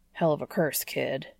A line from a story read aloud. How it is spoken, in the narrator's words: he grumbles to the warlock